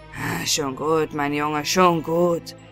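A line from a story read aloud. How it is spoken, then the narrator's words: Grumbling to himself. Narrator (German): brummte er vor sich hin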